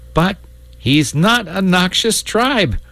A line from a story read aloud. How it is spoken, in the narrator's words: cried the boy distressedly